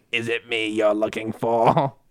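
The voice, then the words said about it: Poor Palpatine character voice. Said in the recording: “my terrible Palpatine impression ... Was pretty bad.”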